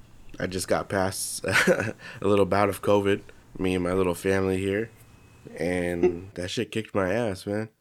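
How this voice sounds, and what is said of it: Congested, stuffy-nosed voice. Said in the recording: “if you guys can't tell by my voice right now, I'm kind of congested”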